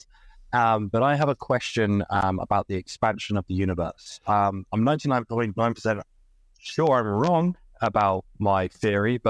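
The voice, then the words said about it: British accent. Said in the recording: “I'm British, but I live in Canada, hence the accent.”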